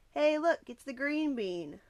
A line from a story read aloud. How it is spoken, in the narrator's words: one of the older boys called out